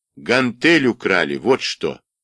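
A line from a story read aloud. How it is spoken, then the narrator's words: Angry reply. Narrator (Russian): зло ответил Женя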